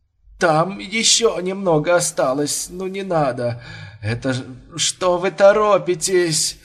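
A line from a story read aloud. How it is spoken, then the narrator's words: Moaning mumble. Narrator (Russian): стоная забормотал Бурмистров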